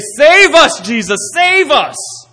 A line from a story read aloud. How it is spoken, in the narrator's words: they're shouting and they say